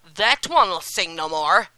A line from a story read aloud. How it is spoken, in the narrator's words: he said roughly